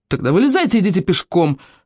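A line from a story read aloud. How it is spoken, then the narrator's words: Angry bark. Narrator (Russian): рявкнула Лила, готовая наброситься на них с кулаками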